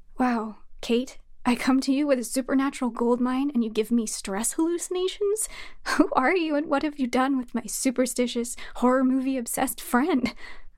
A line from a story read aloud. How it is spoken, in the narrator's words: I offered with a chuckle